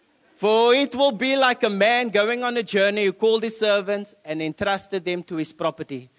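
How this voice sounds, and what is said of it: Accented English with altered s sounds. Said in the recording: “If my sound sometimes like a s, it's just my accent... So sometimes I say sugar instead of sugar”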